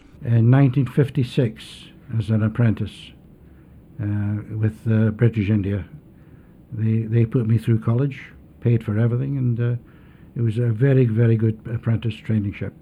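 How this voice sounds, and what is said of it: Scottish accent. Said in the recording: “A Scottish accent”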